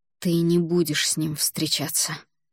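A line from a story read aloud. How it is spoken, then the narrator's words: Hissed into ear. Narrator (Russian): прошипел он мне на ухо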